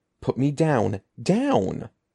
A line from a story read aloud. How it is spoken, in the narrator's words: he cried